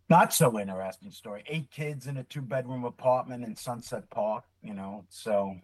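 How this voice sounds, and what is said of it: Brooklyn New York accent. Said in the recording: “this Brooklyn accent, born and raised Brooklyn, New York”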